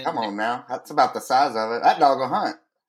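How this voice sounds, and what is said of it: Kentucky accent. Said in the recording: “I haven't heard a Kentucky accent”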